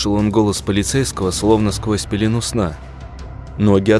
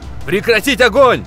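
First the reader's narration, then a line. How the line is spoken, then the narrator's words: Shouting. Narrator (Russian): Полицейский Кирилл кричал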